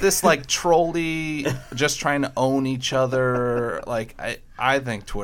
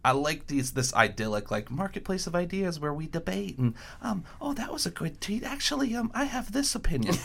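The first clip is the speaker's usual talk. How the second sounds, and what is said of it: Mocking high-pitched voice. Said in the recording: “Why did your voice get all high pitched? ... I like it when you do different voices”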